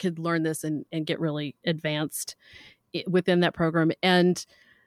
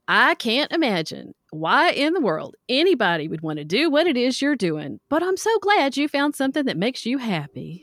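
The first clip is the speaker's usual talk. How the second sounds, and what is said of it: Southern Georgia accent. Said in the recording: “my grandparents also had that exact same accent, by the way. They're from Georgia.”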